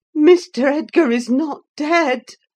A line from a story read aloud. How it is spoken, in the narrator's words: I gasped